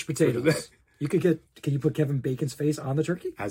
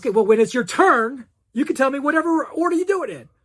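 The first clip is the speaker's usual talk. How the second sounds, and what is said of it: Shouting. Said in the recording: “Why are you shouting”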